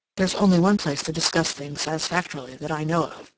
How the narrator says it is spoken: said quickly

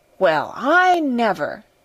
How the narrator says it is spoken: she exclaimed

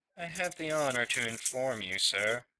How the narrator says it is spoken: he said stiffly

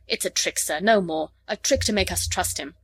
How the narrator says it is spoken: The medic said roughly in Lhari

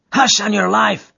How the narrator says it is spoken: cried the miner, standing still in alarm

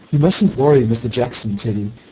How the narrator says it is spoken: said Mr

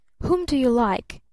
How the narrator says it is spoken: asked her father sharply

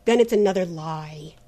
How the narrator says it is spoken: said Trent bitterly

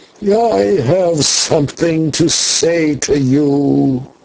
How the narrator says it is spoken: cried in a loud voice from the shadows at the far end of the hall

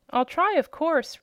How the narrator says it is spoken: replied the Wheeler eagerly

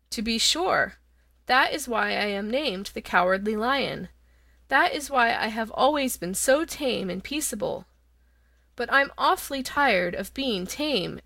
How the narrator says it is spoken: added the lion, with a sigh

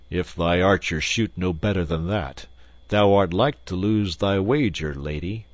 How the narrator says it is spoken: Quoth the king grimly

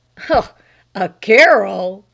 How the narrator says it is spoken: scoffed the lay reader

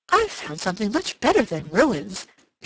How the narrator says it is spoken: she exclaimed

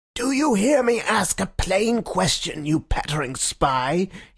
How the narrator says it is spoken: he shrieked in a high, crazy voice

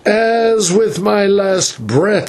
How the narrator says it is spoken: he cried

